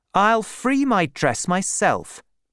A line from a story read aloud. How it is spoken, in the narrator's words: said Bathsheba angrily